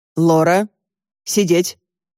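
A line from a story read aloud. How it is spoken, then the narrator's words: Stern speech. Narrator (Russian): строго сказал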